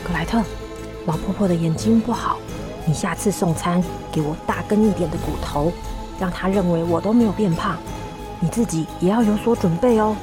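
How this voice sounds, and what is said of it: Whispered, hushed speech. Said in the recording (Chinese): “小声的跟她说”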